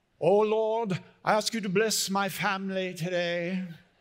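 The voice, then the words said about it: Put-on British accent. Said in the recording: “pray with a British accent ... the British accent thing, although that does sound good”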